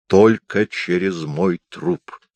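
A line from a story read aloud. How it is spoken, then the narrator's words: Angry mutter. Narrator (Russian): Злобно пробормотал он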